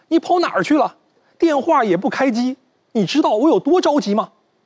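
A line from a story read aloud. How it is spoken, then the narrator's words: Sobbing. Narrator (Chinese): 张娜已经是泣不成声了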